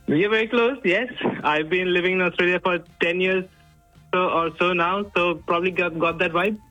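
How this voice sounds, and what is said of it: Indian accent with Australian mix. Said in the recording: “I think you're Indian, but you've got a bit of an Australian mix with that.”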